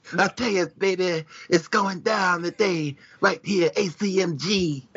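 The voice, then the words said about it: Dusty Rhodes impression, missing wheeze. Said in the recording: “I can't really do Dusty ... You just got to get the wheezing part in during the microphone part, and you would get it right.”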